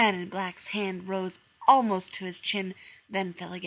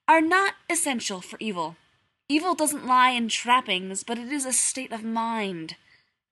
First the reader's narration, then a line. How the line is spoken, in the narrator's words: said firmly